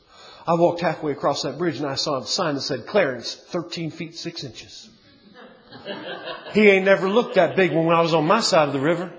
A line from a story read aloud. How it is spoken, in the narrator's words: whispered the terror-stricken Rufus